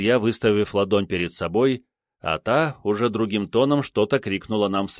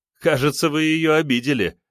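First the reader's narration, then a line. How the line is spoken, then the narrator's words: Laughing student. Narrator (Russian): рассмеялся ученик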